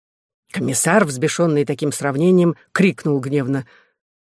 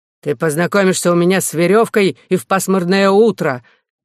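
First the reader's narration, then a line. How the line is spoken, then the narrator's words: Shout. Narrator (Russian): крикнул светский представитель церковных интересов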